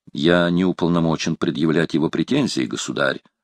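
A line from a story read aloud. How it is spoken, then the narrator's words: Plain. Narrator (Russian): сказал де Комин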